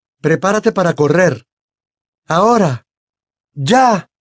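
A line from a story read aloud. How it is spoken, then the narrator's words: Shout. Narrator (Spanish): gritó Harry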